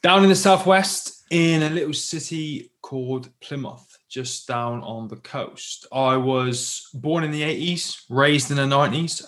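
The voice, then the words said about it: British accent. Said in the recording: “I grew up in the UK, as you can probably tell by my accent”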